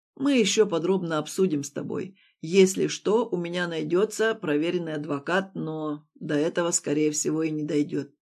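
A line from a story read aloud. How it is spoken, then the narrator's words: Perfectly calm, matter-of-fact. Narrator (Russian): совершенно спокойно сообщает Слава, как будто речь идет о какой-то совершенно обыденной ситуации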